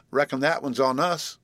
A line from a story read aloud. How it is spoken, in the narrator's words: she laughed